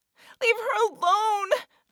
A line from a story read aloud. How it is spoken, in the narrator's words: yelled